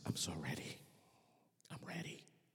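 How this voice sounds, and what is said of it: Strained voice of someone in pain. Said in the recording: “in his painful voice”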